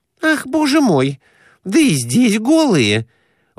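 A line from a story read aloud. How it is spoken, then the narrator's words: Exclamation. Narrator (Russian): воскликнула Глафира Семеновна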